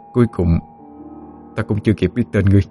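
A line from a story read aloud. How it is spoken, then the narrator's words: Soft sighing. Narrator (Vietnamese): Minh Khánh khẽ thở dài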